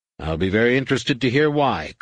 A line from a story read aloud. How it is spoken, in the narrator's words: snapped